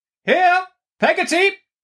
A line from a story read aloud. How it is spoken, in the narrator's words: cried Miss Betsy